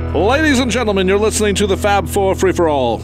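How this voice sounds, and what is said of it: Dramatic horse-race announcer voice. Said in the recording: “You sounded like a horse racing announcer”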